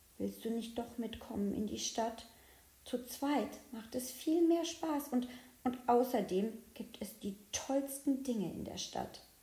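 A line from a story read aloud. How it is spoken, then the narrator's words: Whisper. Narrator (German): flüstert er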